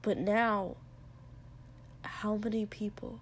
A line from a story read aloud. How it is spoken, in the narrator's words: Shoto asked quietly